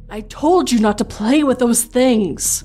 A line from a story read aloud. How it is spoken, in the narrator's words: my mother exclaimed in a panic